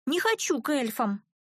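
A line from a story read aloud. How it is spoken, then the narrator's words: Slightly hoarse, stubborn repetition. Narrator (Russian): Чуток осипшим, но таким же упрямым голоском повторила Вира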